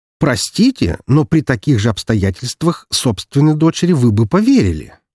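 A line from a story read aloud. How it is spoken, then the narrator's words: Accusing tone. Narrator (Russian): практически обвиняющим тоном сказал я ему в лицо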